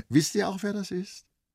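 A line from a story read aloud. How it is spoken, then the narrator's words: Friendly laughing. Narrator (German): sagte Vrenchen freundlich lachend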